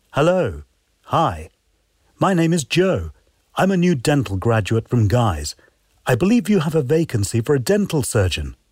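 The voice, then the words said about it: Cut-glass upper-class English accent. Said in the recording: “has a cut glass English accent”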